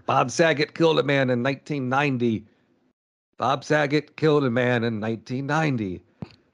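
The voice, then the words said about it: Poor imitation of another person's voice. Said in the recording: “terrible Gilbert impression”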